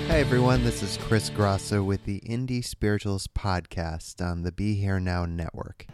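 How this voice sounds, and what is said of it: Slightly deeper, congested radio voice. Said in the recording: “just getting over this little cold ... gives a little more radio voice”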